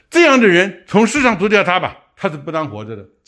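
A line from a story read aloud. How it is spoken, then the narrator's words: Crowd speaking loudly. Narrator (Chinese): 众人听他说到这句话，就高声说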